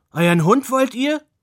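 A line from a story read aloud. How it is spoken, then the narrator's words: Grandfather calling out. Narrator (German): rief Großvater Roku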